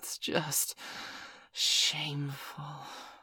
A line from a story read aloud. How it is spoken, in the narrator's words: Miss Angeli said, amidst a chorus of moans